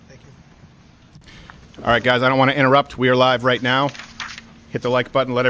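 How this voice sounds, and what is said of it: Out of breath, panting. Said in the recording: “I'm out of breath because I just had to run from across town”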